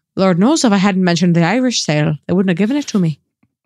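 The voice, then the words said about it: Put-on Irish accent. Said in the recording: “I adore your Irish accent.”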